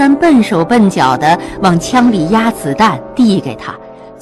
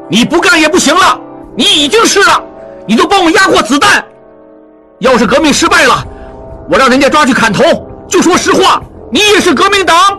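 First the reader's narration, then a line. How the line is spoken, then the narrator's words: Shouting amid gunfire. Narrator (Chinese): 一边射击一边喊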